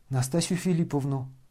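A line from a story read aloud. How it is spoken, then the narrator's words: Muttering. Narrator (Russian): пробормотал князь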